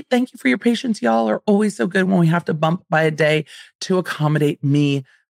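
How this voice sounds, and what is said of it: Slightly raspy voice. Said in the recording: “I'm a little raspy because I'm recording on the tails of a very busy BravoCon weekend”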